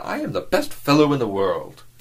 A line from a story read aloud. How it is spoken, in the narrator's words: exclaimed the young man